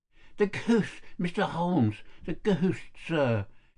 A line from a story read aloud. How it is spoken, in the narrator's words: he gasped